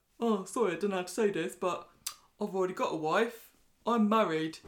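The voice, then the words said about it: Imitates another person's voice. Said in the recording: “my Spider impression? ... pretty good”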